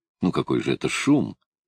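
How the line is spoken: Tender. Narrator (Russian): ласково сказал Томми

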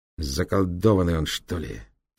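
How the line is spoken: Albino speaking through teeth. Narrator (Russian): сквозь зубы произнес альбинос

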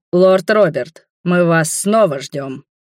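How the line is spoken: Booming. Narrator (Russian): прогремел Леангард

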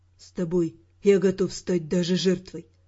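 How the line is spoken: Whisper in the ear. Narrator (Russian): шепнул он мне на ухо

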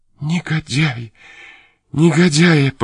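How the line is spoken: Choked voice. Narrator (Russian): повторила сдавленным голосом

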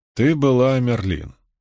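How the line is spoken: Calm. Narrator (Russian): спокойно сказал Брин

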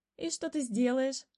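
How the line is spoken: Laughing. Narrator (Russian): рассмеялась рыжая белка

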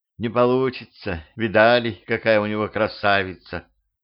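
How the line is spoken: Sighing. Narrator (Russian): Лаира вздохнула

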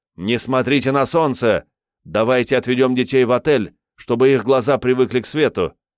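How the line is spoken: Shouting. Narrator (Russian): Джереми закричал

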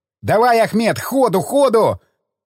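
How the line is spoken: Yelling. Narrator (Russian): заорал Колесников механику-водителю

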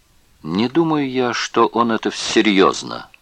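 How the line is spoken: Plain. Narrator (Russian): сказал он наконец

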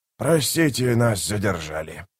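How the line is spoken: Growled. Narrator (Russian): прорычал он

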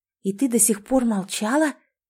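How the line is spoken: Angry hiss. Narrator (Russian): гневно зашипела Элизабет

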